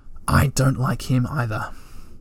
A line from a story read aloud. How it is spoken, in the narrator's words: Moomin Troll put his head inside the stove and he whispered